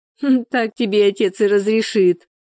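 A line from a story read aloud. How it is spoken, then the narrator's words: Laughing. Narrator (Russian): рассмеялась Шура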